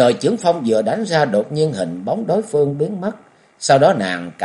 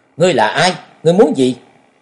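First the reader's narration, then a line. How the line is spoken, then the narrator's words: Stern loud shout. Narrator (Vietnamese): nghiêm giọng quát lớn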